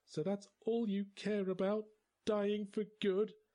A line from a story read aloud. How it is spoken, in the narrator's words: Her voice was quavering